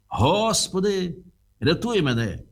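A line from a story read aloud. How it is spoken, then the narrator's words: Shout. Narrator (Ukrainian): закричав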